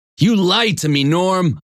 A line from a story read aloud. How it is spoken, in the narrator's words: shouted